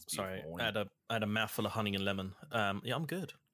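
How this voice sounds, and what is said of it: Slips into a slight Australian accent. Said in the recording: “you switched into a somewhat Australian accent there at the end ... It came out a little bit.”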